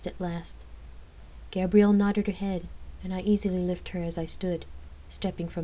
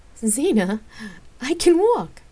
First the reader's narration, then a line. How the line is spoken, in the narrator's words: she laughed